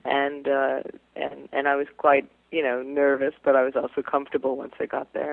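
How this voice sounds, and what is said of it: Slight English accent. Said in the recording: “I'm starting now, to pick up just a hint. ... There's a little bit of an English accent”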